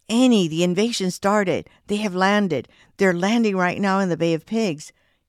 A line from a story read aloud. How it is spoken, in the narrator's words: Alfredo exclaimed